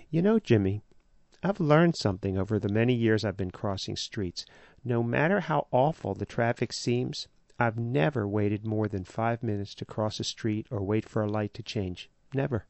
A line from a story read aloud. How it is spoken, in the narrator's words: She said to me calmly